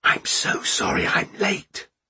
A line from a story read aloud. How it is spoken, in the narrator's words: said in a whisper